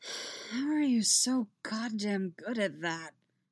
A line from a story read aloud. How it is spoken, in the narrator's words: Luke asks in a sigh